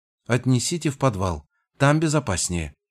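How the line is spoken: Even-voiced command. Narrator (Russian): приказала она ровным голосом

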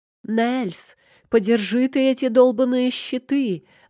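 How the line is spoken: Yelled. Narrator (Russian): заорала

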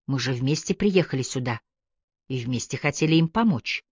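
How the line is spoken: Quiet voice. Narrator (Russian): Тихим голосом сказала

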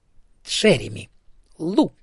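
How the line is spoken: Icy tone. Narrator (Russian): сказала Ида ледяным тоном

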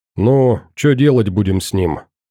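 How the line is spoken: Plain question. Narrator (Russian): спросил комрад

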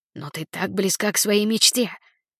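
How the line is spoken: Whisper. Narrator (Russian): прошептал другой голос

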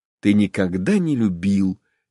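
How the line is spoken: Quiet. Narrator (Russian): тихо сказал Вронский

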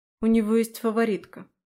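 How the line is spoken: Said gloomily. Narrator (Russian): мрачно сказала я

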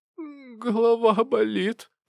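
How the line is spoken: Moaning. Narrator (Russian): простонала она

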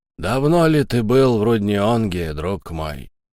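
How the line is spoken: Sad question. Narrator (Russian): печально спросил монокль

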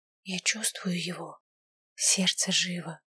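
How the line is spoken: Tearful whisper. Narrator (Russian): произнесла шепотом, чувствуя, как на глаза наворачиваются слезы

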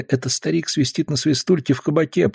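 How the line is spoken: Mumbled. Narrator (Russian): пробормотал он

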